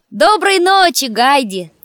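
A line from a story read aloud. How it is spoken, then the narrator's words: Shouted farewell, young shepherd. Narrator (Russian): крикнул, прощаясь, пастушок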